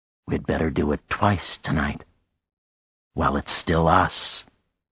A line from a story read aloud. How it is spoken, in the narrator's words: she whispered hoarsely